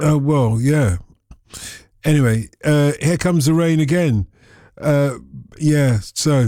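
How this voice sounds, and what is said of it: Usual voice. Nothing is said of it.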